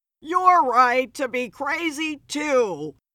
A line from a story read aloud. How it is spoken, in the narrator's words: yelled